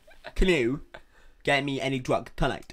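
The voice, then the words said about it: Imitates another person's accent. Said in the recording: “Like, in that accent.”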